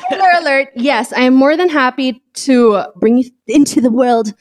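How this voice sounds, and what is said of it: Usual voice. Nothing is said of it.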